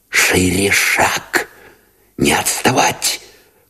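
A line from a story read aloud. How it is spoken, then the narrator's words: Urgent whisper. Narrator (Russian): поторопил шепотом Новиков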